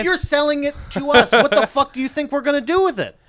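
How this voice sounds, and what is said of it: Yelling angrily. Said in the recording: “I'm yelling at you.”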